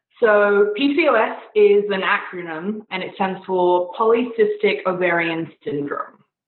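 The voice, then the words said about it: Beautiful accent. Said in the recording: “has a beautiful accent that I could probably listen to her just read the phone book every day”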